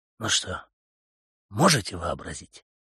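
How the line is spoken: Hoarse whisper. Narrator (Russian): спросил Блантон хриплым шепотом

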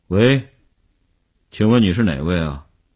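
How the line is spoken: Tense, trembling voice. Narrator (Chinese): 林星呼吸紧张，几乎不能控制声音的痉挛

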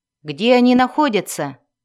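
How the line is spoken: Shouted. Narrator (Russian): крикнул Брент

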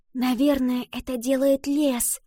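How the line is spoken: Whisper. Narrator (Russian): прошептала Ива

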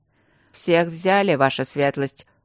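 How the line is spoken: Grim report. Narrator (Russian): мрачно сообщил

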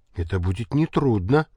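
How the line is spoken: Disgruntled mumble. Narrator (Russian): буркнул Санька, страх как не любивший крупных грудастых дам

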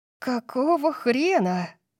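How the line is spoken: Breathed into ear. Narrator (Russian): Тори выдохнула мне в ухо

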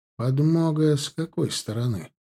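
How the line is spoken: Sudden cold question. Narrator (Russian): вдруг очень холодным тоном спросил Сорокин

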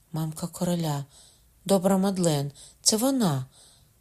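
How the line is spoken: Cry. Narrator (Ukrainian): скрикнула Маргарита, у голові якої майнула несподівана думка

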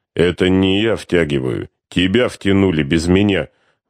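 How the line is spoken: Gloomy muttering. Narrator (Russian): мрачно бубнил полковник

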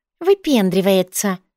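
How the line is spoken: Distant grumble. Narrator (Russian): Кто-то буркнул издали

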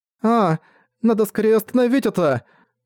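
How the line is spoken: Exclamation. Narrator (Russian): воскликнула Энна Саоне

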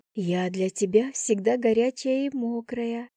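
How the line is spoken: Whispered addition. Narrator (Russian): шепотом добавила я

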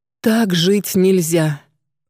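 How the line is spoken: Moaning. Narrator (Russian): простонала Алена, вспомнив вчерашний вечер

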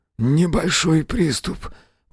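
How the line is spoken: Wheezing, strained. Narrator (Russian): просипел Мэлори, не в силах выпрямиться

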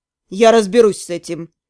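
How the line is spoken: Cold. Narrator (Russian): холодно сказал Торн

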